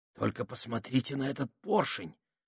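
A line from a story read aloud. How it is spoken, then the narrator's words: Reverent whisper. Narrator (Russian): прошептал Минхаус с благоговением, которое у него всегда вызывали механизмы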